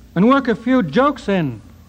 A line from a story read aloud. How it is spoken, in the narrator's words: cried Heine